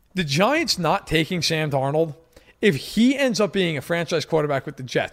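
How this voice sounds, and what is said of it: New York accent. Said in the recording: “I am from New York, in case nobody can tell from my accent.”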